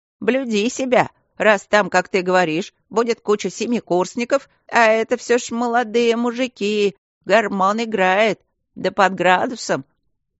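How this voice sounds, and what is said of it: Intonation of a prim schoolmistress. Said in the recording (Russian): “с интонациями воспитательницы школы благородных девиц”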